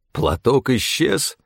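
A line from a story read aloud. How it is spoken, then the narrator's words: Almost plaintive. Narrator (Russian): голос Стефана звучал почти что жалобно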